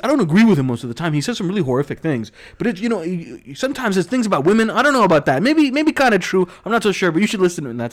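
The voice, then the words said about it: Impression of a very fast talker. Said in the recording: “he's talking like 100 miles an hour ... He talks really fast ... That was a really good impression.”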